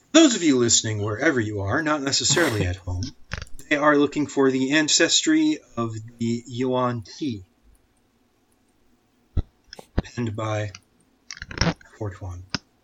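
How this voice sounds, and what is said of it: Soothing radio announcer voice. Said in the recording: “Nice radio voice. ... it was very soothing.”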